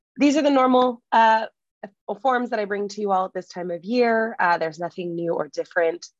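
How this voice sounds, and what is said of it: Sick, strained voice. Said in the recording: “a little bit sick, so sorry for my voice.”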